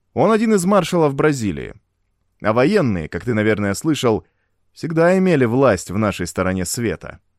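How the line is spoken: Cheerful, smiling. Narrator (Russian): весело улыбнулся Тадео

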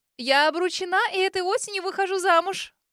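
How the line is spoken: Delighted squeak. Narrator (Russian): Восторженно пискнула сестрица, радостно улыбнувшись

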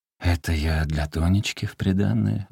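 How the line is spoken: Muttering. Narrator (Russian): бормотал

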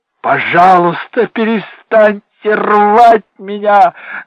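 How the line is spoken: Shouted. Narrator (Russian): закричал Дэнни

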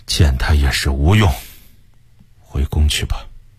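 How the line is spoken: Soft-spoken. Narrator (Chinese): 崇祯轻声地说

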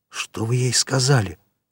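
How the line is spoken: Whispered question. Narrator (Russian): шепотом спросил Марсер

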